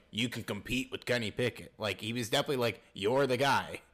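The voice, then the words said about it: Deep-voiced Mike Tomlin impression. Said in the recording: “I like your Mike Tomlin voice ... my instinct was just to go with a deeper voice. ... It was a perfect impression.”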